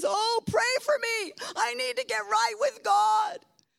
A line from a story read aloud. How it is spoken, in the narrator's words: cries out and she says